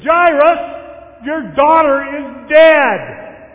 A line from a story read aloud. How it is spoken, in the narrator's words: Someone who apparently had graduated from the Paul Aiken School of Pastoral Sensitivity, blurting out for all to hear